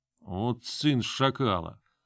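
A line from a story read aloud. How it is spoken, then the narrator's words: Man cursing through teeth. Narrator (Russian): Сквозь зубы выругался мужик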